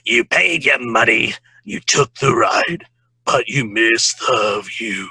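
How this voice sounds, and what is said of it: Harvey Fierstein impression. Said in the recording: “I do have a Harvey ... It's a really good impression ... It's really good.”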